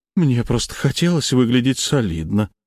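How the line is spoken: Sigh. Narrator (Russian): вздохнул Черномор

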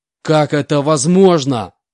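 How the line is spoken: Furious shout. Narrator (Russian): прокричал, краснея от злости, Стив

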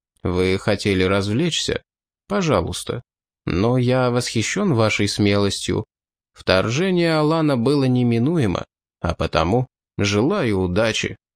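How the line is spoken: Very quiet. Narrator (Russian): Оливиец очень тихо сказал

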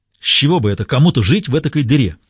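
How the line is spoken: Irritated question. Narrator (Russian): раздраженно поинтересовался бармен

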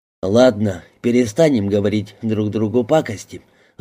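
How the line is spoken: Sighing. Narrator (Russian): вздохнул Картер

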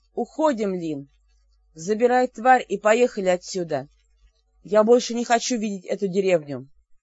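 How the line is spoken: Loud snort. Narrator (Russian): громко всхрапнул

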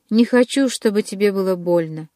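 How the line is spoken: Muffled but insistent. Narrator (Russian): глухо, но настойчиво проговорил

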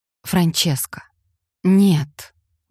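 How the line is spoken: Weary strained words. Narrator (Russian): устало выдавил он

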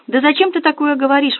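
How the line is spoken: Exclaiming. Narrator (Russian): воскликнула свекровь

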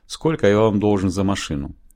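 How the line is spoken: Dry question. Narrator (Russian): сухо спросил

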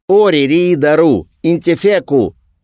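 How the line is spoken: Loud bark, motorcyclist. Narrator (Russian): гаркнул мотоциклист

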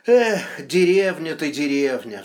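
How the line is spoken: Sighing. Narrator (Russian): вздохнул Кричко

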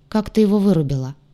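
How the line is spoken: Cold question, young man. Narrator (Russian): холодно поинтересовался парень

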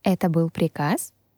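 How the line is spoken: Calm question. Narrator (Russian): спокойно спросила

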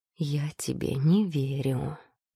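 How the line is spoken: Slightly hoarse voice. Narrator (Russian): произнес Демиар хрипловатым голосом

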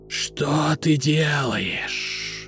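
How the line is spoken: Serpent hissing. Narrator (Russian): зашипел змей

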